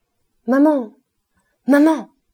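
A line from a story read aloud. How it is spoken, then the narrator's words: Sudden shout. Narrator (French): cria tout d'un coup Nana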